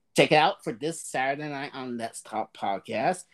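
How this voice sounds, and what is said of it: Hoarse, fading voice. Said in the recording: “I'm losing my voice now.”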